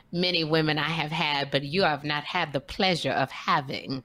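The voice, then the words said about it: Kat Williams impression. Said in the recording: “indelible, indubitable impression of Kat Williams ... That was pretty good.”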